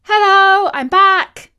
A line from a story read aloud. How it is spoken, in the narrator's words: she called out